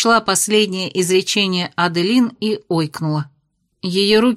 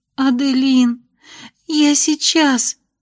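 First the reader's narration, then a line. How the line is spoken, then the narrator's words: Sobbing. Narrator (Russian): всхлипнула Майя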